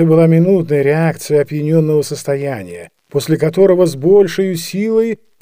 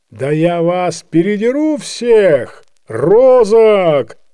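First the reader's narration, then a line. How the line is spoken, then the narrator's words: Recovered, shouting. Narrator (Russian): крикнул, совсем оправившись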